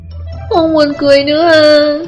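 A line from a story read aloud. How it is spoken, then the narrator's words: Child's tearful whimper. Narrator (Vietnamese): Tiểu Tứ Tử thấy Triệu Phổ không muốn, liền mếu máo nói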